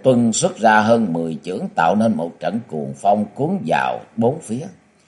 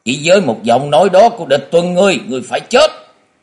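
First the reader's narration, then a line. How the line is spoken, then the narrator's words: Furious roar. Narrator (Vietnamese): bị Địch Tuân nói như thế, Dương Côn điên tiết gầm lên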